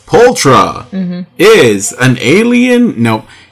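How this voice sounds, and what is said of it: Mock news announcer voice. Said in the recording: “In my best newsmaker voice,”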